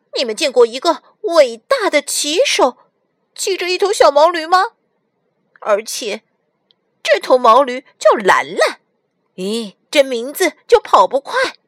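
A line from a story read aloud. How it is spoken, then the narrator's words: Loud clamoring. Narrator (Chinese): 小白大声嚷嚷起来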